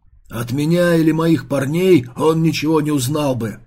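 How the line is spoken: Loud growl. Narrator (Russian): зарычал Бустер, заглушив слова дочери

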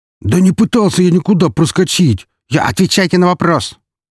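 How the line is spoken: Barking mercenary. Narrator (Russian): рявкнул наемник

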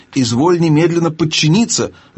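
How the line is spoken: Shrill squeal, older man. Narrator (Russian): взвизгнул дядя

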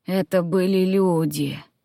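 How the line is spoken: Hoarse croak, druid. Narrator (Russian): прохрипел друид

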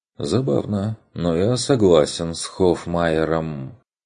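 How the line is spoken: Sighing. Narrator (Russian): вздохнул Ланс

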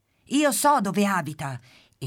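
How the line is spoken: Happy chick exclaiming. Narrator (Italian): esclama il pulcino tutto contento

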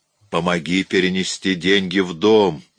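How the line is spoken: Quiet, menacing voice. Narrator (Russian): тихим и страшным голосом проговорила она

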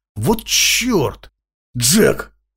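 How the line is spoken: Breathless exhale. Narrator (Russian): выдохнул Крамер

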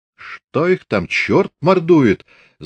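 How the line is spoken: Annoyed exclamation. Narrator (Russian): с досадой воскликнул Фомин

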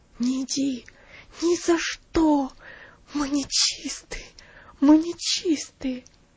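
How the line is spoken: Mother's whisper. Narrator (Russian): мать прошептала

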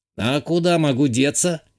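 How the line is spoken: Snide snort. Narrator (Russian): ехидно хмыкнул тот

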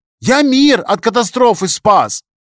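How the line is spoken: Shouted. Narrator (Russian): выкрикнул программист

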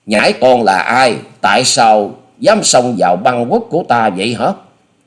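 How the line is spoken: Old woman's angry scream. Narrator (Vietnamese): lão bà giận dữ rồi thét tiếp

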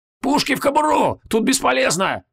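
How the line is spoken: Shouting while running. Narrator (Russian): крикнул на бегу Зачихан

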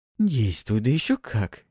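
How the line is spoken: Giggle. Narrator (Russian): хихикнула Пафи

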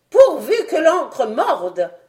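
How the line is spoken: Doctor exclaiming. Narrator (French): s'écria le docteur

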